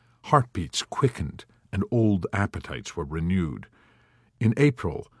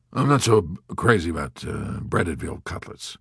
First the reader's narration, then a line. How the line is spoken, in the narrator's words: grumbled the skeptical B-25 commander in the north of Corsica